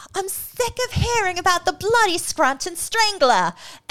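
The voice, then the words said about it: Poor put-on English accent. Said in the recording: “my horrible English accent... It's no better than mine.”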